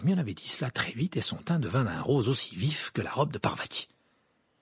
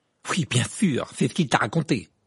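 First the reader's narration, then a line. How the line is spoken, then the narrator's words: Nasty tone. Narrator (French): dit Ron d'un ton mauvais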